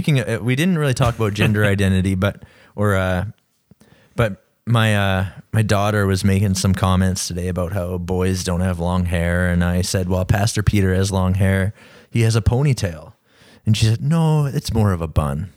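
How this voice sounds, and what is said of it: Smooth, sexy NPR-style podcast voice. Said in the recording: “my voice is just extra sexy tonight ... I've been practicing a podcast voice ... It felt a little bit like NPR tonight”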